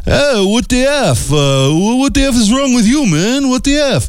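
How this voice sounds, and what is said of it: Put-on New York City accent. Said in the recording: “That was my New York City accent.”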